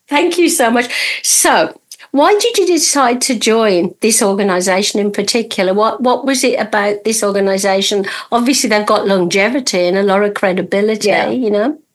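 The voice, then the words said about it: Birmingham British accent. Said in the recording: “my accent is from Birmingham and it's supposed to be the worst one in the world ... British accent”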